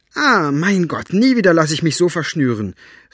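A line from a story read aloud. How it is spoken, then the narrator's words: Called out. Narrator (German): rief Elinor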